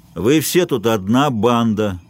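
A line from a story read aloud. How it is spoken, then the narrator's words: Lazy drawl. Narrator (Russian): лениво сказал обожженный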